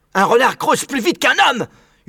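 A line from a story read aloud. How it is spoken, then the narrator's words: Shouted. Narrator (French): hurla Maître Renard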